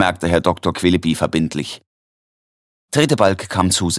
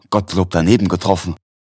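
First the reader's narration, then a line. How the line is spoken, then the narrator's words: Grateful, blissful, confused stammer. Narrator (German): Tretebalg stammelte, dankbar, selig, verwirrt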